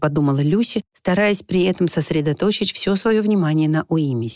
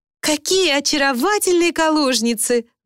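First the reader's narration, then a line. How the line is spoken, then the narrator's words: Loud admiring exclamation. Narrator (Russian): громко восхитилась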